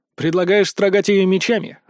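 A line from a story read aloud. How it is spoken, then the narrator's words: Smirking grunt. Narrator (Russian): хмыкнул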